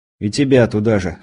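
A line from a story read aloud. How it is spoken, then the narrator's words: Wry snort. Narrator (Russian): хмыкнул я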